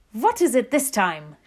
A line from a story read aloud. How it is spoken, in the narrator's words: shouted the Grand High Witch